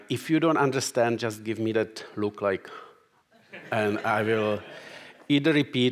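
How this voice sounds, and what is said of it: Czech accent. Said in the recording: “I am Czech, so you can tell by my accent.”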